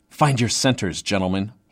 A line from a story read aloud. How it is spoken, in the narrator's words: said in a stern hiss